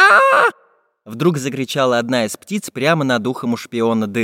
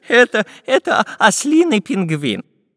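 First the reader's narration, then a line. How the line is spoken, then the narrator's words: Laughing. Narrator (Russian): засмеялся профессор Пыхтелкин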